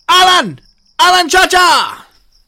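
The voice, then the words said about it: Attempted impression of a co-host. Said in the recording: “I'll try my best impersonation of Ben right now ... I can't do it. I'm not the man to do it.”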